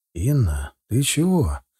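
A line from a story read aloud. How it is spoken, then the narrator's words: Calm polite tone. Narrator (Russian): Я старался говорить спокойно и вежливо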